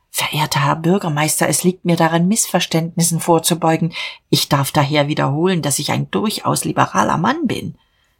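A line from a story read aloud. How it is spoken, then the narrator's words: Trembling whisper. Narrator (German): flüsterte bebend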